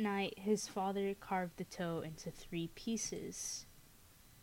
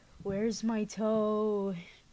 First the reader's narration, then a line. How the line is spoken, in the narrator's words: groaned